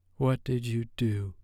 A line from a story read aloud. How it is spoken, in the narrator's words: she asked in a low, shaky voice